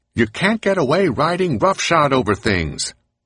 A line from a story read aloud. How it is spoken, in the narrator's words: Moses shouting back